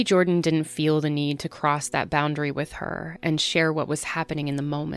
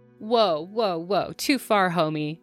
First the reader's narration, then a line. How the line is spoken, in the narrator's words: Jordan laughed